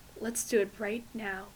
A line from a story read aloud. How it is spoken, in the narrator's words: Ray murmured into her hair